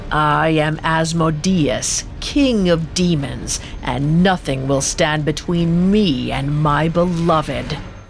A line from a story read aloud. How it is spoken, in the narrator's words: He growled